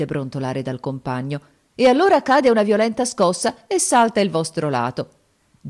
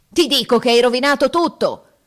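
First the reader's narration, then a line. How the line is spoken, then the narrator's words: Furious roar. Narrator (Italian): ruggite, desiderando d'aver l'amico nelle mani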